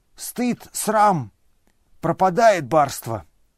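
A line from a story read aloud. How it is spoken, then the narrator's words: Sighing. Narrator (Russian): Он вздохнул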